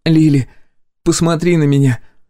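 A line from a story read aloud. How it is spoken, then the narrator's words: Sad, exaggeratedly tragic tone. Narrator (Russian): грустно усмехнулась, стараясь придать своему тону побольше трагизма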